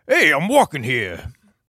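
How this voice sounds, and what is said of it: New York accent, Al Pacino-like. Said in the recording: “we like to do fake accents ... My natural accent sounds like ... that was really good ... great ... I'm a guy from New York City ... All the way from Al Pacino”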